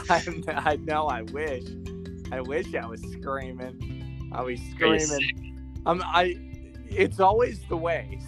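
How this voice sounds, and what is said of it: Hoarse, nearly lost voice. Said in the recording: “My voice sounds terrible. I woke up and I had like no voice.”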